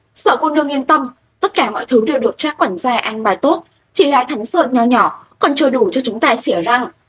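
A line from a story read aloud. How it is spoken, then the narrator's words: Loud shout. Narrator (Vietnamese): Lệ Kinh Thiên lại quát to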